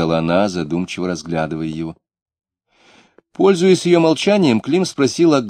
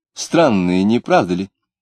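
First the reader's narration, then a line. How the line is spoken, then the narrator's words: Lively exclamation. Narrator (Russian): воскликнула Лидия, снова оживляясь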